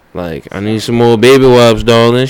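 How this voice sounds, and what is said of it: Put-on Southern drawl. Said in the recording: “You should say that with the southern draw. ... if I had a southern accent, ... just put like a nice southern draw. Anything you say sounds like fucking honey.”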